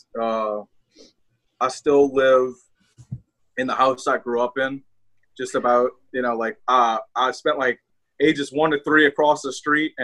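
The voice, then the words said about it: New Orleans accent. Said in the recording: “your accent, you are from New Orleans”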